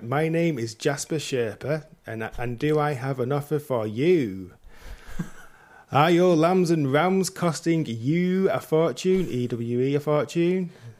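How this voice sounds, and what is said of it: Put-on American accent. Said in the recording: “Can I do it in an accent ... American works.”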